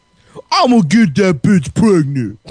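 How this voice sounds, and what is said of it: Imitates another person's voice. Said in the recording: “my Tracy Morgan impression. Is it good? ... It's really good.”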